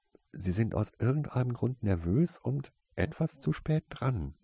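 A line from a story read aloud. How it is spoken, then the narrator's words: Whispered reply. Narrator (German): entgegnete Tase ihn flüsternd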